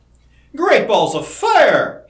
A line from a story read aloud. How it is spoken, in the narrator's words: he exclaimed